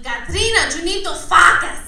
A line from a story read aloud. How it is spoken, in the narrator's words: she'd yell at me